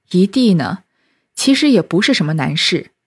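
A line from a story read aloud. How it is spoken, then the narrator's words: Sighing. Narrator (Chinese): 宝玉叹了口气，说道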